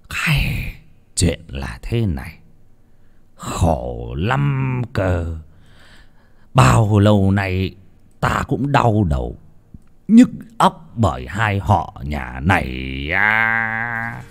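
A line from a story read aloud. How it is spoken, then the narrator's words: Old man sighing heavily. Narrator (Vietnamese): Lão Trọng Kiên thở dài sườn sượt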